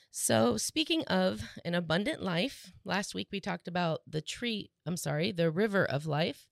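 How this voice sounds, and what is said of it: Slightly rough, hoarse voice. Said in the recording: “My voice is a little bit rough ... It is a little rough”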